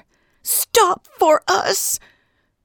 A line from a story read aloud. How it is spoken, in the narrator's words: They all scream with her